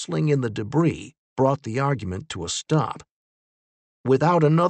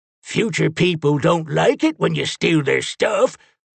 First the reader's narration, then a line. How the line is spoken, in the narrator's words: Lincoln grumbled